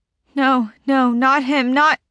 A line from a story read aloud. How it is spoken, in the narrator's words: Jamila whimpers